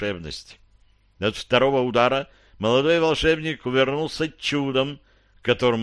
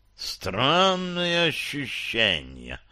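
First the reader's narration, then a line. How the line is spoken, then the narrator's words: Hissing, slightly surprised ghost. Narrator (Russian): прошипел король-призрак немного удивленно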